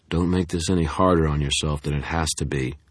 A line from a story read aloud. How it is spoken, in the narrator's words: Denton said, his voice toneless